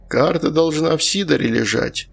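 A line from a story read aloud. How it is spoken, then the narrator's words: Displeased grumble. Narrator (Russian): не скрывая недовольства, буркнул он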